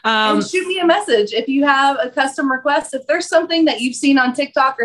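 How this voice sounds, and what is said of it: Kentucky Southern American accent. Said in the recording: “if you can't tell from my accent, that's where I'm from ... Kentucky”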